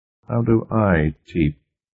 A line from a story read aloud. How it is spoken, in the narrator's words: Cartwright asked tightly